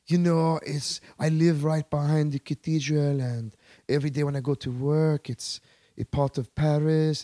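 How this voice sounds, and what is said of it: Fake French accent. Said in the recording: “why are you fucking talking in a French accent already? ... you're not French”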